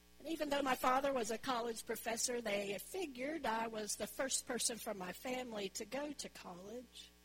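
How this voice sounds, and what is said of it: Southern US accent. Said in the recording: “a woman from the South ... my accent, which I think is a beautiful accent.”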